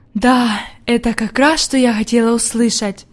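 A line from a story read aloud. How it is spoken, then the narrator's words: Whispered, grandmother. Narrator (Russian): прошептала бабушка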